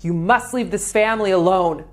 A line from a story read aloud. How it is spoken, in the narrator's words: yelling